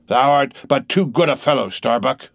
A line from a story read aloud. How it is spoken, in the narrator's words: he said lowly to the mate